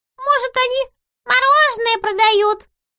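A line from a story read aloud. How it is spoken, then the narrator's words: Squeaky voice. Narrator (Russian): пропищал чей-то голос из груды клоунских велосипедов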